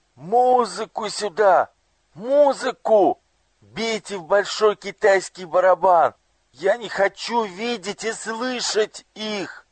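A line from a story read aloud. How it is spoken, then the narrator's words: Frightened, anguished shout. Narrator (Russian): Ему стало так тяжело, так страшно, что он закричал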